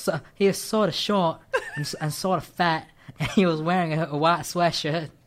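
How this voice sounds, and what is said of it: Put-on American Southern accent. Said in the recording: “With a southern accent ... imitation of southern. I was hoping you would try ... that wasn't that bad ... Forrest Gumpy ... Wasn't... Too Indian ... That sounds more like Alabama, not like us in Mississippi”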